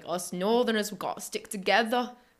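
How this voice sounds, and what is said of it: Gruff northern English Barnsley accent. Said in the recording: “It's such a, like, gruff sound, like Barnsley ... it's a weird accent”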